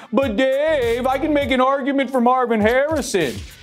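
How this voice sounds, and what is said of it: Weird put-on voice. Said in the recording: “why do you talk in that weird voice? It's unbecoming.”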